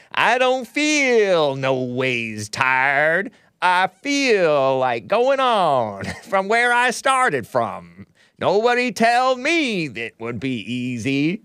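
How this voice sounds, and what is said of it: Hillary Clinton's put-on Black accent. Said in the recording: “She doesn't do a fake black accent as well as Hillary Clinton's fake black accent.”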